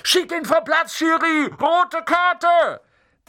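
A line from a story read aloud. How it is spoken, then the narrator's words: Shouting from the stands. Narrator (German): Unten auf den Rängen schrie Dean Thomas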